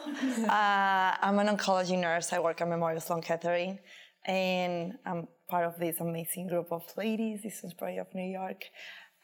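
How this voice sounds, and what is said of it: Mexican Spanish accent. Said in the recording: “You can tell my accent from Mexico.”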